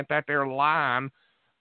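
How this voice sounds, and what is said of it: Put-on West Virginia accent. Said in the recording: “my West Virginia accent”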